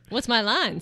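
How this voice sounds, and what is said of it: Newscaster-style voice. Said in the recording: “Now you sound like a newscaster.”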